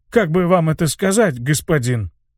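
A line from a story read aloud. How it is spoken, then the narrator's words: Mumbling. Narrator (Russian): промямлил он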